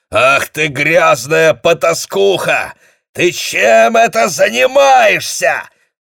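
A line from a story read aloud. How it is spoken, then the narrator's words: Yelled angrily. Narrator (Russian): заорал он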